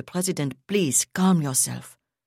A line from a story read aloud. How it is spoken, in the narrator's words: Angelica Sidus said in her most soothing tones